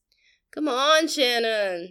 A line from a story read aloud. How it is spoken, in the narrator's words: groaned